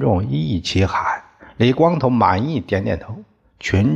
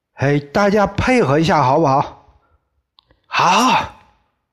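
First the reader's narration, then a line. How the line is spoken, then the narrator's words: Shouting to crowd. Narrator (Chinese): 李光头对着群众喊叫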